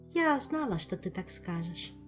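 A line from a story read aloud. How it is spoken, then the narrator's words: Smiling. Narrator (Russian): улыбнулась Азиль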